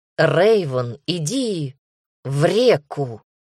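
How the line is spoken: Hoarse, excited. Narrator (Russian): Голос Дамера прозвучал подозрительно хрипло, и мои ментальные сети уловили звенящие нотки возбуждения

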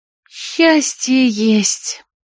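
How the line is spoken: Blissful purr. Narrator (Russian): блаженно промурлыкала Марго

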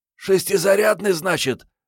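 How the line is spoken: Hoarse rasp. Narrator (Russian): прохрипела Мариетта

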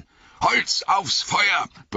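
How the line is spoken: Roaring. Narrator (German): brüllte Gandalf den Hobbits zu

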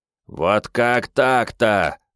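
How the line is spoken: Disappointed howl, warrior spirit. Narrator (Russian): разочарованно взвыл воинственный дух

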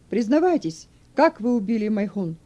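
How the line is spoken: Judge shouting after dramatic pause. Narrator (Russian): Судья выдержал паузу, чтобы подчеркнуть значимость своих слов, а потом закричал

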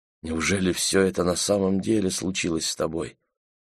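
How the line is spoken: Quiet question. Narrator (Russian): тихо спросил Джон

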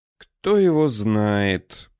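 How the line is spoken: Inward sigh. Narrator (Russian): про себя вздохнул Данияр

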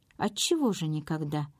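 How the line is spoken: Cheerful question. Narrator (Russian): веселым тоном спросила Констанция Фишер

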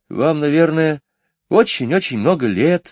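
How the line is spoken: Sighing. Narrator (Russian): вздохнув, сказала Джейн

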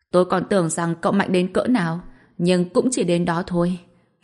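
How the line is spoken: Smug loud laughing. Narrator (Vietnamese): Cát Tắc vẫn còn đang hà hề đắc ý cười to

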